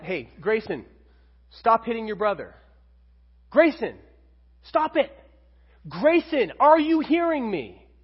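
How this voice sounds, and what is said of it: Yelling at a child. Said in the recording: “When I'm yelling at my kid”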